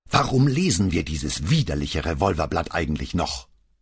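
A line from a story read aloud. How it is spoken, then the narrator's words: Furious outburst. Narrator (German): explodierte wütend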